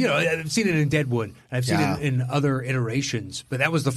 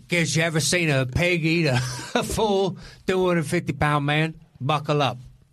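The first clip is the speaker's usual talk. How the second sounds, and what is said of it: Shaky put-on accent, drifting. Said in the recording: “I'm not exactly sure what accent that was... I lost it halfway through... I had a tenuous grasp on it at best”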